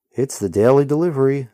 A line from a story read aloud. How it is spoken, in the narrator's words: the rider shouts over the ruckus